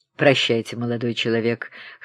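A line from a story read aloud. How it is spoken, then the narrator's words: Hoarse bass voice. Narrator (Russian): хриплым басом произнес генерал Ягунов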